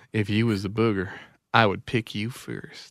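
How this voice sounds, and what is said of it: Put-on pickup-line voice. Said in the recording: “say it in my pickup voice.”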